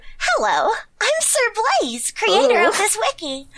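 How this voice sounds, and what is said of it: Silly dog character voice. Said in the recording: “Do a dog voice ... Is that how you hear dogs?”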